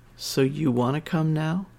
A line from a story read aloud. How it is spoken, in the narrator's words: Her voice was lazy and happy when she murmured